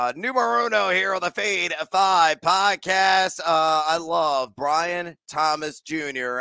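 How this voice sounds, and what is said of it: Usual voice. Nothing is said of it.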